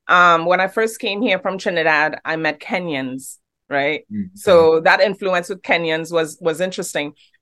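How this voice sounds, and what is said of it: Trinidadian accent that sounds British. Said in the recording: “they don't understand my accent... You have a great accent. It sounds British.”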